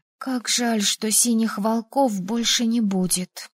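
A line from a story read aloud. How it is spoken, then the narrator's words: Whispered. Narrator (Russian): прошептала Элайза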